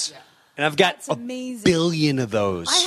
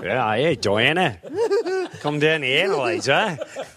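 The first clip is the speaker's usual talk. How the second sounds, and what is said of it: Put-on Australian accent. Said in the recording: “an Australian guy ... The accent”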